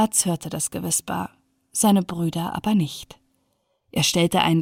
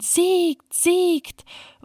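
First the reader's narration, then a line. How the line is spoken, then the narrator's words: Screaming wild geese. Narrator (German): Die Wildgänse in der Luft schrien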